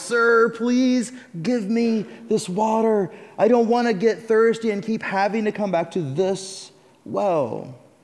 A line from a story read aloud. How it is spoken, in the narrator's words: Pleading now